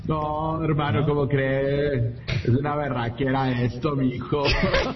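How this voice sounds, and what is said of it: Put-on Colombian accent. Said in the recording (Spanish): “si le sale o no le sale, el acento colombiano ... Sí le sale”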